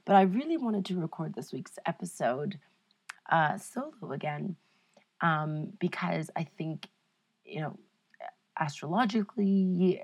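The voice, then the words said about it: Sick-sounding, congested voice. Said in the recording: “I am overcoming a weird cold, as you can probably tell from my voice”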